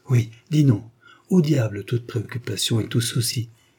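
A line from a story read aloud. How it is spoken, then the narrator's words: Joyful exclamation. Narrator (French): s'écria joyeusement Salabert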